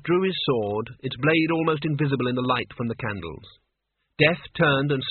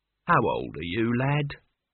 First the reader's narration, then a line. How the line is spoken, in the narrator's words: said Albert kindly